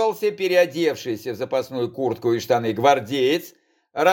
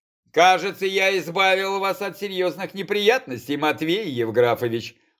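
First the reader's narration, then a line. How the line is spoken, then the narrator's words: Smirking snort. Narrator (Russian): хмыкнул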